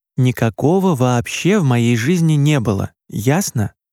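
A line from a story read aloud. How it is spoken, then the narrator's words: Very quiet, very angry. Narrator (Russian): Очень тихо и очень зло проговорила мама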